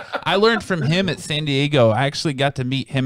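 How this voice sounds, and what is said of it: Usual voice. Nothing is said of it.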